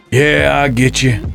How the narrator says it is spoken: Jake chuckled

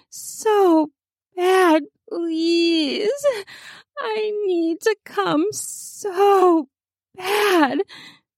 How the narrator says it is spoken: gasped, almost pleading

